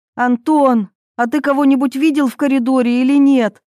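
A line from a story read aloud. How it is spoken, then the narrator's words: Impatient shout. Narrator (Russian): крикнула Ирина, теряя терпение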